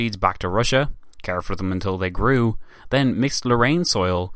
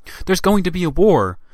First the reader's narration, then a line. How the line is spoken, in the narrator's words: she exclaimed to the French ambassador